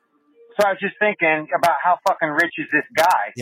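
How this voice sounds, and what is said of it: Impression of Darb. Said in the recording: “my Darb impression”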